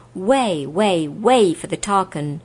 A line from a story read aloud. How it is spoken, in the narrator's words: a loud voice shouted out